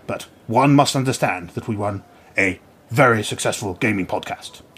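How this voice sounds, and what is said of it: Imitates another person's voice. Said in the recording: “doing the Bojo voice ... It hurt.”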